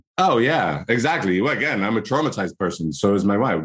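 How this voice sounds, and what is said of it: Irish accent. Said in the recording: “my annoying Irish accent”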